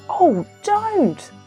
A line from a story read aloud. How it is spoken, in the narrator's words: they all cried